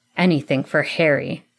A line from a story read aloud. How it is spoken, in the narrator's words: Sirius growled in reply